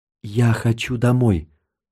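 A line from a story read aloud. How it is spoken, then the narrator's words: Whisper. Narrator (Russian): прошептал я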